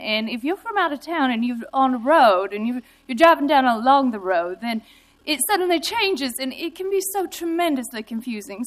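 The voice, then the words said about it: Put-on Southern US accent. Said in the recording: “I'm going to do this in my southern accent”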